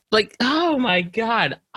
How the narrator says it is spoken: I cried on the floor laughing

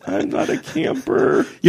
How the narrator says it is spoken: say to somebody in a squeaky voice

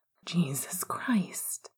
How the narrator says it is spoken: he breathed out

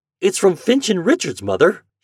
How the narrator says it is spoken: he cried excitedly

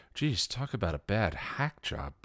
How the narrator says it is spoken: Buffy breathed

